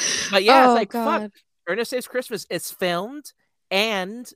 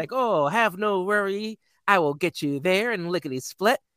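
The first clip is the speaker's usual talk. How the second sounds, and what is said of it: Impression of Ernest. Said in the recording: “That's my Ernest impression.”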